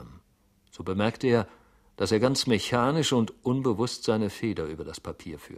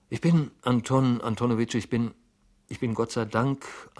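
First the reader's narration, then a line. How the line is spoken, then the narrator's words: Stuttering answer. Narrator (German): antwortete stotternd Herr Goljetkin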